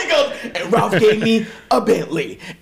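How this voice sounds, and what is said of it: Imitates another person's voice. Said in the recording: “a really good Jerry Lauren impression”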